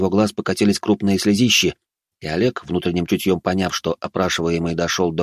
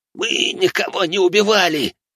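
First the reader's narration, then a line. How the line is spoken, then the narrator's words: Hoarse wail, young man. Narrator (Russian): сипло взвыл молодой человек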